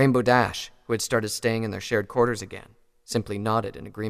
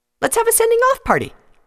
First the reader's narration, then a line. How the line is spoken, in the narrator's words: Pinky said happily